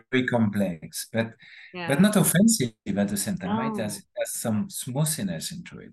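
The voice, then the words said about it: French accent. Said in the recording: “That's my French accent.”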